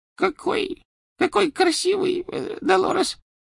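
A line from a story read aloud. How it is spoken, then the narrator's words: Faltering babble. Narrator (Russian): пролепетала она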